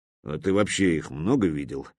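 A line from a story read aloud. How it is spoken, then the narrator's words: Grumbling. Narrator (Russian): буркнул Брюква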